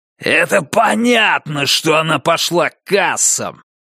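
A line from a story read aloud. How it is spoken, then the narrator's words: Barked in face. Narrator (Russian): рявкнул Дэниелс ему в лицо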